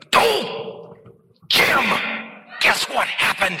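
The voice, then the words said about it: Imitates another person's voice. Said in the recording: “my Richard Foster impression”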